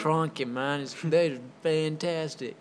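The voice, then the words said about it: Bad put-on accent, switching mid-way. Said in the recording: “That was a horrible accent... You like switched accents and mid-accent.”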